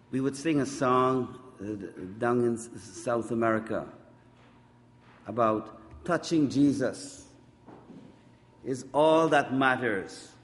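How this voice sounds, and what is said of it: South American accent. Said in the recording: “my South American accent”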